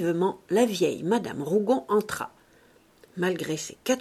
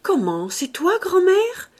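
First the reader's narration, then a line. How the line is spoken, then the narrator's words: Exclaiming. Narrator (French): s'écria Clotilde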